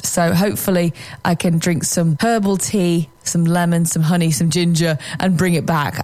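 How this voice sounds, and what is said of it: Hoarse, fading voice. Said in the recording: “I did some karaoke last night, so you probably hear that my voice is getting a little bit lost”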